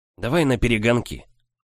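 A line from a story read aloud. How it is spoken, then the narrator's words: Eager whisper. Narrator (Russian): С блеском в глазах он прошептал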